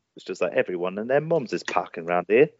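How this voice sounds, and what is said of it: Country farmer twang accent. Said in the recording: “the farmer accent ... They kind of like country twang that I have ... saying that line helps me get into that accent.”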